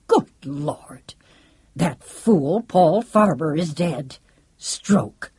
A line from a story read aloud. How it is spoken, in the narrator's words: the quiet was broken when Lancelot barked out abruptly